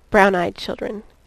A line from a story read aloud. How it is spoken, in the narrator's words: murmured inaudibly